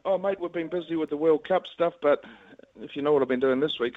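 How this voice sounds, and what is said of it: New Zealand accent. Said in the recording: “Haven't lost your Kiwi accent either, son.”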